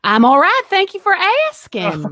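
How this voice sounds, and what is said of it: Southern twang accent. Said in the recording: “that nice Southern twang and charm”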